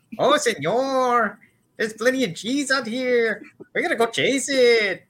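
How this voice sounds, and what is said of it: Put-on cartoonish Mexican accent. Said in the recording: “the Mexican accent, specifically as done by Mel Blanc ... It's a pretty good cheech.”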